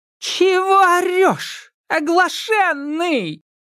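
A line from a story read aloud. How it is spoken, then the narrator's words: Angry shout, swamp spirit. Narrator (Russian): Разозлившись, крикнула кикимора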